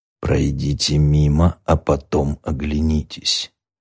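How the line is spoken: Quiet whisper. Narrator (Russian): тихий голос прошептал

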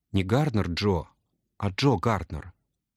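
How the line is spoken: Whisper. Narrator (Russian): шепнул он

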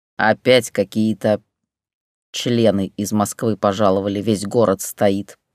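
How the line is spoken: Grumbling man. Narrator (Russian): проворчал Петя

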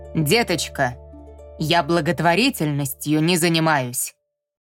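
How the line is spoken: Barked, woman. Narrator (Russian): рявкнула трактирщица

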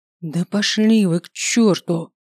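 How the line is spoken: Hissed through teeth. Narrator (Russian): процедила

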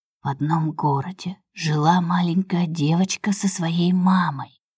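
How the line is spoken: Whispering girl. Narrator (Russian): шепотом, начала Светка

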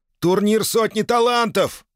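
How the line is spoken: Yelling. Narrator (Russian): заорал Малдер

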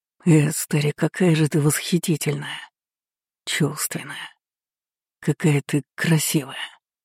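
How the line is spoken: Passionate mumbling. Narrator (Russian): Умудрялся бормотать этот мужчина

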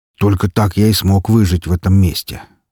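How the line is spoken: Sad sigh. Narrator (Russian): с неожиданной грустью вздохнул Раф

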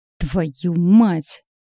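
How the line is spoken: Growled through teeth. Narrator (Russian): рычит Роман сквозь зубы

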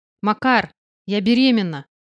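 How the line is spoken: Shouting as loud as possible. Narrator (Russian): крикнула так громко, как только смогла

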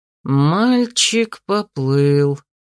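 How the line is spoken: Snide drawl. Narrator (Russian): ехидно протянул Арти

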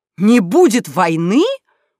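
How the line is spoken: Indignant shout. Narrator (Russian): возмущенно вскричали близнецы, словно их лишили обещанного подарка

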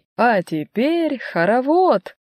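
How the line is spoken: Cheerful announcement. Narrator (Russian): весело объявляет Дарина Сергеевна

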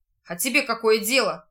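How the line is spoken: Rude, curt. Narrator (Russian): грубо отрезал тот

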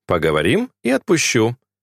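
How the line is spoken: Calm. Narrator (Russian): спокойно ответил он

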